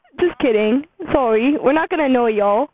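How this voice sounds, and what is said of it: Put-on British accent. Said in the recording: “Let's talk in British accent for the rest of the podcast. ... Is my British accent good?”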